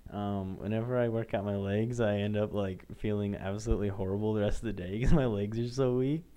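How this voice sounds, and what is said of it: Tired-sounding voice. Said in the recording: “I sound a little tired ... I'm so tired, I can't think straight”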